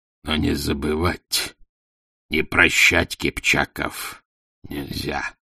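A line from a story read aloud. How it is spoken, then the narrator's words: Hoarse rusty voice. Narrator (Russian): прохрипел ржавым голосом Субудай Богатур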